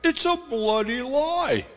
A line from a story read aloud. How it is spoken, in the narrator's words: he shouted in my face